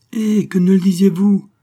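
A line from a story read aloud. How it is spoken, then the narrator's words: Revived, eager exclamation. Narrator (French): s'écria Xavier, reprenant soudain goût à l'existence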